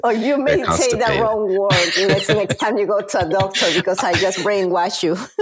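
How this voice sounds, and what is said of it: Peruvian Spanish-accented English. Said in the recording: “Where is your accent from? ... I am originally from Peru, South America.”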